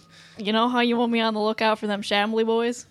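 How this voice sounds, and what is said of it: Poor, phlegmy attempt at Boston accent. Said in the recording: “I don't know how to do his accent. I'm just going to warn you. It's going to be really bad. ... Why does Edgar sound like a phlegmy Wisconsin? ... Supposed to be from Boston”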